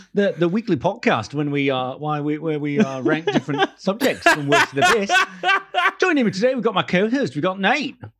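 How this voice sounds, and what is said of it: Bad mixed Australian, posh, South African accent. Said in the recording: “Terrible accent. ... You sound like slightly Australian, slightly posh boy. ... I put a South African into in there ... as well. ... Yeah, it's like a South African twang.”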